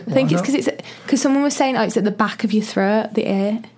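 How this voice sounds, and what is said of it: Northern English accent. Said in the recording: “don't lose your accent ... Not changing your accent ... I get more Northern”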